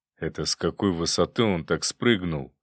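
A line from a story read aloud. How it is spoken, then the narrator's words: Thoughtful question. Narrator (Russian): задумчиво спросил он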